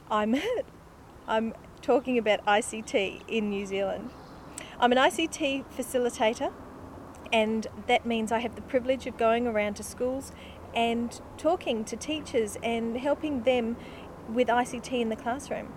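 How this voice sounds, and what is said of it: Australian twang. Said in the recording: “I am based in New Zealand, but you're not wrong. You do hear an Australian twang.”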